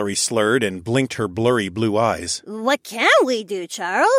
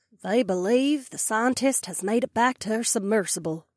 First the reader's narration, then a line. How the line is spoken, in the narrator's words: the desperado breathed in her deep twang